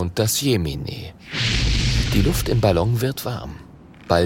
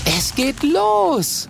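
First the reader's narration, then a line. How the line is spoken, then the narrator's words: Calls out. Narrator (German): ruft Mathilda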